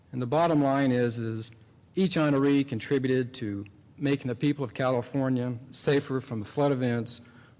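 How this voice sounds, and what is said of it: Virginia accent. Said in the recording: “it's my Virginia accent”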